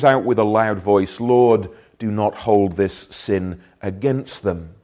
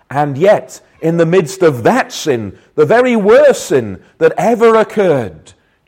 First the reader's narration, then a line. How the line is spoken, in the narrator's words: Jesus cried out